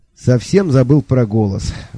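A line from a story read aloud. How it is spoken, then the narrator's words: Sigh. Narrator (Russian): вздохнул сэр Кофа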